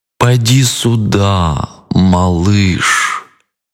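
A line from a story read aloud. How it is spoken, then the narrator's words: Drawl, crocodile. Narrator (Russian): протянул крокодил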